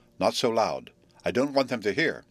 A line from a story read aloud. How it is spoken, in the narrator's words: Frank said in an equally guarded tone